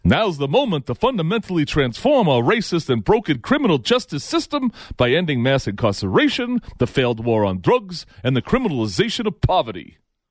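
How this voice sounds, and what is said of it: Bernie Sanders impression. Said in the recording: “got to do my Bernie voice ... It hurts to do Bernie like that.”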